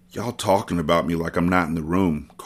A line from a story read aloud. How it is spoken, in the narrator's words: Carter whispered in a weak tone